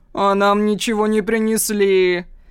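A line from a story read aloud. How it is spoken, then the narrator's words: Mocking. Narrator (Russian): насмешливо добавляет его приспешник Жан-Клод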